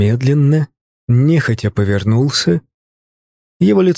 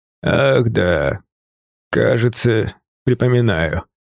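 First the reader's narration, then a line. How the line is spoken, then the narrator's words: Drawling, hoarse smoky voice. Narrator (Russian): протянул он хриплым прокуренным голосом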